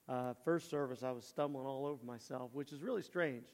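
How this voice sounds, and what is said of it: Strained, failing voice. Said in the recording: “I'm losing my voice this morning.”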